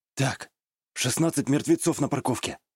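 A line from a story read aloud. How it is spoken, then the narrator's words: Whisper. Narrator (Russian): прошептал я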